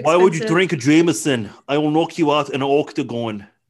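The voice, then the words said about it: Bad Conor McGregor impression. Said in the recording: “it's Conor McGregor ... That's a terrible impression.”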